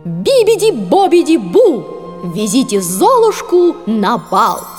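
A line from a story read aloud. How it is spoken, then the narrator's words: Loud pronouncement. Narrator (Russian): Фея громко произнесла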